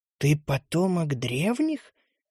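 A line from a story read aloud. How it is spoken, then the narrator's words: Stunned whisper. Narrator (Russian): ошарашенно прошептала Эмбер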